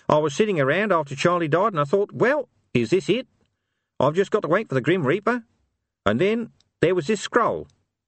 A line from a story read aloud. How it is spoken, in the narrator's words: McGarry, smiling sweetly